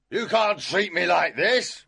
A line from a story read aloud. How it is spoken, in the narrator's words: shouted